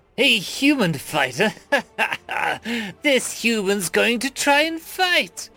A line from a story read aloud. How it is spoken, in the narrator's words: the elf laughed